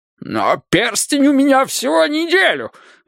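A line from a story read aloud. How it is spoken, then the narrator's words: Shrill squeal. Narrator (Russian): взвизгнул Борис Ильич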